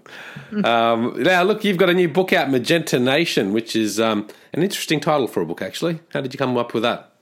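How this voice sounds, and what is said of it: Australian accent. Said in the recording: “I love listening to your accent. Australia is one of my favorite places.”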